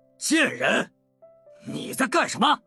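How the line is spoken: Angry roar. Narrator (Chinese): 李普连忙对老婆大吼了一声

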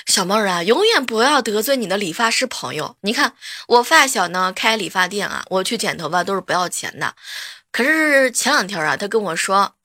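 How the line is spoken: Sighing. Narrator (Chinese): 叹息跟我说

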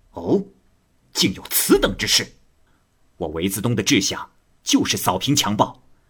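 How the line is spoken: Angry. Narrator (Chinese): 韦自东愤怒地说

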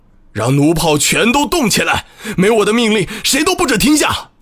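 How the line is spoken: Roaring. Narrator (Chinese): 博古多咆哮道

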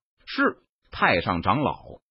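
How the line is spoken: Calm, flat. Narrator (Chinese): 陈宇脸色淡然，眼眸平静，他淡淡说道

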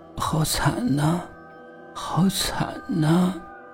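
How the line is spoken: Sobbing, muttering woman. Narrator (Chinese): 这个打扮的妖艳的女子哭哭啼啼的，嘴里嘟囔着重复一句话

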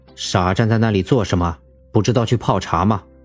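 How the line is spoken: Cold. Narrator (Chinese): 他脸色沉了沉，冷声说道

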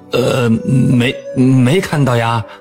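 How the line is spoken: Stammering. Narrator (Chinese): 东郭先生结结巴巴地说

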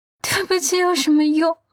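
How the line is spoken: Weak choked sob. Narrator (Chinese): 他柔弱的哽咽

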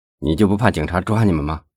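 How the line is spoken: Wild laughter. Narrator (Chinese): 小敏又笑了，笑声越发显得放荡不羁

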